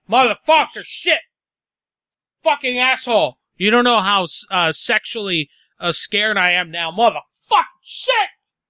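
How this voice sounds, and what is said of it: Yelling very loudly. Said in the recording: “I'm yelling really loud.”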